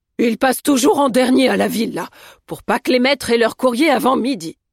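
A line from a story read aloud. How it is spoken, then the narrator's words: Cook's grumble. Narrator (French): grogna Fanny Bronnenmayer, la cuisinière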